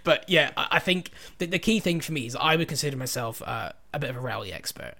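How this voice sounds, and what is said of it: Slight soft Scottish accent. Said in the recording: “my slightly dulcet Scottish accent”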